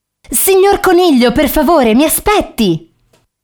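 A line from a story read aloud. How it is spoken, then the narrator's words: Shouted. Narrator (Italian): gridò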